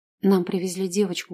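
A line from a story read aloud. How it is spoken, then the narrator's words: Calm. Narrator (Russian): говорю спокойно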